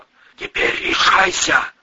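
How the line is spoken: Wheeze. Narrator (Russian): просипел Кафтаранг

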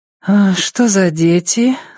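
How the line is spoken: Sleepy mumble. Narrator (Russian): сонно пробормотала она

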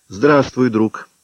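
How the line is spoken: Calm. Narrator (Russian): сказал спокойно

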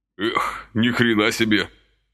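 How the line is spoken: Astonished exhale. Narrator (Russian): пораженно выдохнул Василий

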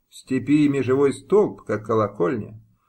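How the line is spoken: Plain. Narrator (Russian): сказала пани Мыльская

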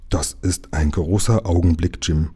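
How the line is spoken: Solemn murmur. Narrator (German): murmelte Lukas feierlich

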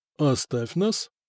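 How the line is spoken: Quiet command. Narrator (Russian): негромко сказал князь

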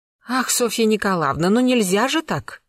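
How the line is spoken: Exclaimed. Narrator (Russian): воскликнула Марья Дмитриевна

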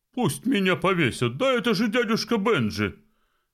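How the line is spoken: Exclamation. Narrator (Russian): воскликнул Фестус

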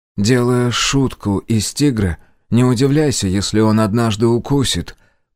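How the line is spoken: Long drawn sigh. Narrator (Russian): протяжно вздохнул помощник

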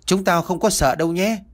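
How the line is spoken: Bold loud threat, small boy. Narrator (Vietnamese): Thằng Tí nhỏ con nhất nhưng mà bạo gan hơn cả, dõng dạc dọa nạt

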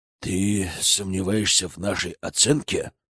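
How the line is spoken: Through clenched teeth. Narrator (Russian): процедил Гроздин

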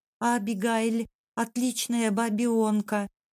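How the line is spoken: Babbling. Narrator (Russian): пролепетал он

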